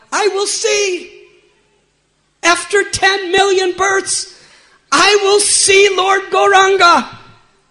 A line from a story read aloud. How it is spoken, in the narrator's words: cried out